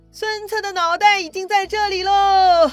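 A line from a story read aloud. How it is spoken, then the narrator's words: Soldiers shouting. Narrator (Chinese): 让下面的士兵大喊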